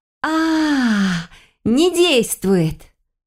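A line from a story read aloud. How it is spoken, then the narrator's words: Triumphant exclamation. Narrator (Russian): Победно воскликнула я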